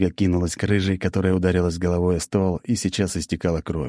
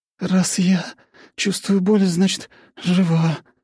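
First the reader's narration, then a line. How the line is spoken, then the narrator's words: Moan. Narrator (Russian): простонала рыжая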